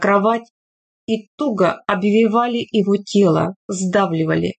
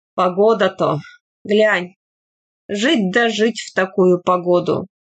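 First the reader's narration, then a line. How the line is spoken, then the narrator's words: Heavy breathing, sighing. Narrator (Russian): Тихон Трофимович тяжело засопел, вздохнул и добавил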